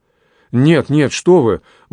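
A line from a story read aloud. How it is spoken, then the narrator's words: Exclamation. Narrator (Russian): воскликнул Анри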